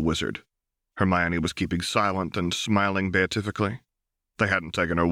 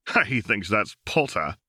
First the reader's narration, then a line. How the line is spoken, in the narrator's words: Albrechtson chuckled, very much in the manner of Vernon Dursley